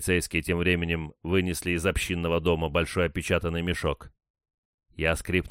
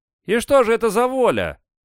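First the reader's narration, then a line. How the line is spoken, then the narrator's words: Shout from crowd. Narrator (Russian): крикнул кто-то из толпы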